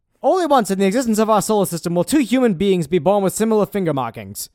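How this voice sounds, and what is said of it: Put-on transatlantic accent, woman's version. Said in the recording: “you got to read it like it's 1911 ... I just really want to get good at the transatlantic accent. But the deal is I'm doing like the woman's version of it as opposed to the man's ... like the Audrey Hepburn one”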